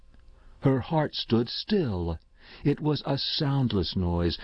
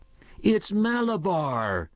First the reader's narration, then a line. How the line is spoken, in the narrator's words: he screamed in a powerful, strange voice